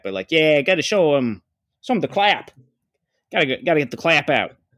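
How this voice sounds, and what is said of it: Attempted Boston accent. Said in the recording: “I can't do the Boston accent. It just comes out as that ... Is that a Boston accent?”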